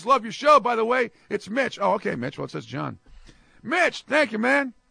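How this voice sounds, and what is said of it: Voice not at its best. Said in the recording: “Sorry for my voice today. Hopefully it'll be better on Thursday.”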